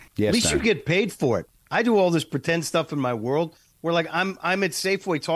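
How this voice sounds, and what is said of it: Usual voice. Nothing is said of it.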